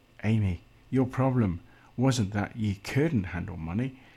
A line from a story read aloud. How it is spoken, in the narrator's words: Lydia said gently